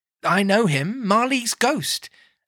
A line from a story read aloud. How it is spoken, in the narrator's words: the dying flame leapt up, as though it cried